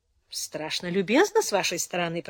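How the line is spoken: Mutter. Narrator (Russian): пробормотал Фрэнк

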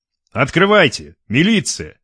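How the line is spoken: Loud command. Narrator (Russian): громко приказал Лев

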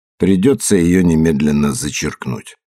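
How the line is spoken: Calm. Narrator (Russian): Иде спокойно сказал

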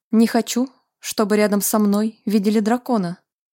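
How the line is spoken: Snorting. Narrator (Russian): хмыкнул Вальтер

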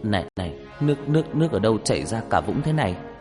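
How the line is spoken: Dazed, trembling. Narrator (Vietnamese): Gương mặt của Nam lúc này như người mất hồn, mãi một lúc sau anh mới đáp bằng cái giọng run run

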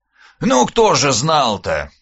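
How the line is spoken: Snorting reply. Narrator (Russian): хмыкнул в ответ Скуратов-Бельский

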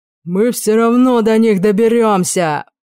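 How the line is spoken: Man growling. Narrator (Russian): прорычал мужик

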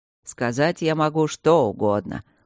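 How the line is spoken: Mocking. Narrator (Russian): насмешливо ответил Свидерский

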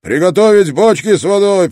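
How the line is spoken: Shouted. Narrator (Russian): прокричал Орлов

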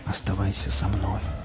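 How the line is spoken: Whispered. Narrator (Russian): прошептал Борг

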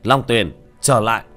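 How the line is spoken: Sharp shout. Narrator (Vietnamese): Tiểu Thất quát lên

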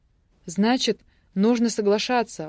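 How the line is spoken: Exclaimed. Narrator (Russian): воскликнула я

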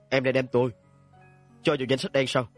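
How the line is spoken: Growling over the phone. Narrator (Vietnamese): Tiếng gầm gừ của ông Lan Qua từ đầu dây bên kia chấn chấn mà truyền tới

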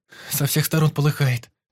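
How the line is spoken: Shrieked. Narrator (Russian): Взвизгнула Лизка

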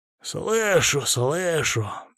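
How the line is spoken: Displeased muttering. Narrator (Russian): недовольно пробормотал

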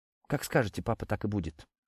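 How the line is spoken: Quiet reply. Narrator (Russian): тихо ответила Кристина

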